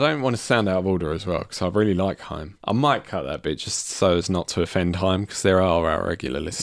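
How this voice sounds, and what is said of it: Usual voice. Nothing is said of it.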